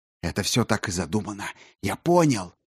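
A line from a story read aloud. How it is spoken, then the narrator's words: Whispered. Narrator (Russian): зашептал Чучел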